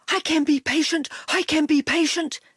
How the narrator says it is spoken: he panted

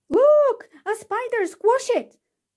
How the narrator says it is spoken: screamed someone

